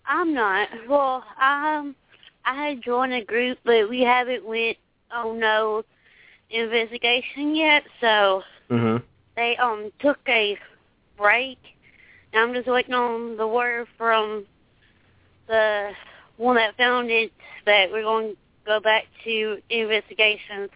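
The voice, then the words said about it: Southern American accent. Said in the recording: “from your accent, you're from the South”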